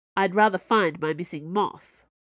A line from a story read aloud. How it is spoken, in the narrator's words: Special Agent Cho said angrily